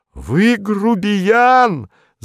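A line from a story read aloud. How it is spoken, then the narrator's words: Fat man shouting. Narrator (Russian): закричал толстый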